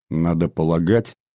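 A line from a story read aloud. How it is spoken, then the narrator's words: Quiet. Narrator (Russian): негромко продолжал Брашко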